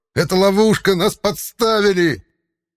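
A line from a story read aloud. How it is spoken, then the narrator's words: Yelling down corridor. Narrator (Russian): Он же первым заорал на весь коридор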